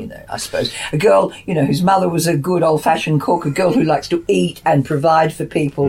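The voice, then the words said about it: Australian accent. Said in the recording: “Perceptive listeners will catch a Aussie accent here.”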